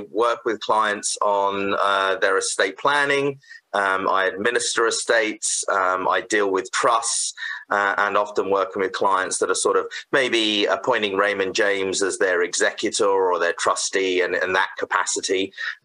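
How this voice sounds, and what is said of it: British accent. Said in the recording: “I was originally from the UK, so you probably tell from my accent ... I didn't think that was a Saskatoon accent”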